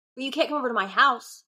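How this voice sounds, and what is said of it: Shouting, heated. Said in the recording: “I don't know why I'm shouting. I'm sorry. I'm heated.”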